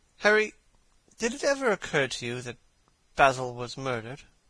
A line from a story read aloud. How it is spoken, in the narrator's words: Lord Henry yawned